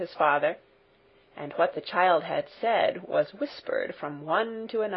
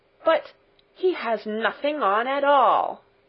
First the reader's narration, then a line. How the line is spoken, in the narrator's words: at last cried out all the people